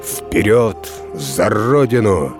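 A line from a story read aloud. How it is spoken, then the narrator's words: Menacing shout. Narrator (Russian): Полководец грозно крикнул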